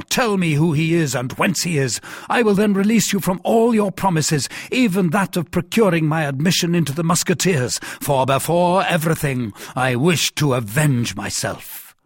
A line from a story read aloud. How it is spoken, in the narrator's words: cried D'Artagnan